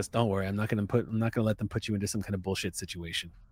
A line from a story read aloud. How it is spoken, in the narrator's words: Lieutenant whispers in your ear she goes